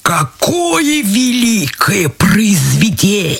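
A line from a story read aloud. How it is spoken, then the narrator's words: Pompous turkey bark. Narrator (Russian): А индюк шаркнул крыльями, надулся, даже покраснел и гаркнул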